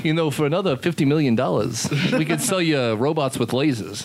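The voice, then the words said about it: Impression of Simpsons salesman character. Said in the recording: “I'm trying to do the guy with the mustache from The Simpsons who sells crap.”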